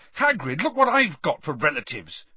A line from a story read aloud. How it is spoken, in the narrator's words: Harry said furiously